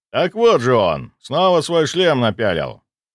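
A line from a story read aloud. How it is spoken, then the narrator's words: Laughing merrily. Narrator (Russian): Он весело рассмеялся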